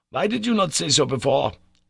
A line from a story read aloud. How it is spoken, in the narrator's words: cried my uncle